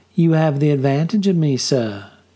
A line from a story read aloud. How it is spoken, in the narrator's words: she said in a light southern accent